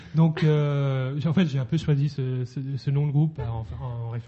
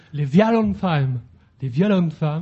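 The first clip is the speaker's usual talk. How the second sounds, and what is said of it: Forced, weak English accent. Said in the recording (French): “j'essaie de forcer mon accent anglais, mais c'est pas terrible.”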